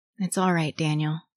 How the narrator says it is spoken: Sam said softly

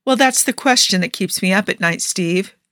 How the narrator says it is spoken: she said evenly

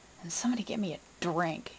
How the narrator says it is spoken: he muttered

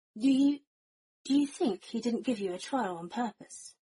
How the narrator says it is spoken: Sirius breathed out slowly

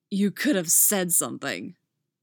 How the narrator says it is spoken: growls, a wave of relief flooding him

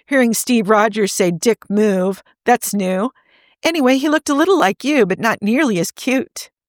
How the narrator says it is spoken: she laughed

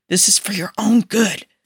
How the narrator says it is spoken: Bucky hissed at him

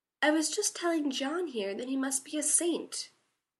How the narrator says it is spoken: Sam said sweetly

